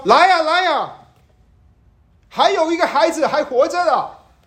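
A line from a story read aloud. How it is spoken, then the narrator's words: Urgent shout. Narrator (Chinese): 这个人喊着说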